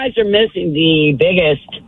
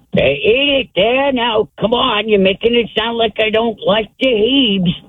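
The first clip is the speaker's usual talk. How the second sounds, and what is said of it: Archie Bunker impression. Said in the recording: “A pretty good Archie Bunker impression.”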